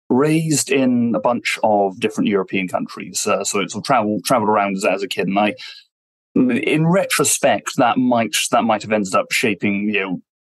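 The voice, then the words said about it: British English accent. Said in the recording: “as you can hear from my voice, I'm British, I'm English.”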